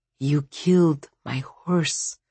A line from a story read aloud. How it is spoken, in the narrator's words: whispered